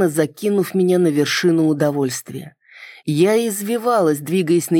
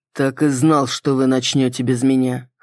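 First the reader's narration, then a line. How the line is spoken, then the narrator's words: Wry grunt. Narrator (Russian): хмыкнул Саргон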